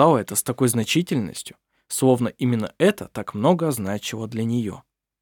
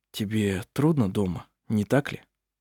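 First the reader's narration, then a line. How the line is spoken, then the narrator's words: Quiet. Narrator (Russian): он тихо сказал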